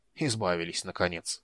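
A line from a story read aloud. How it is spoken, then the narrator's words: Mutter. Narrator (Russian): пробормотал он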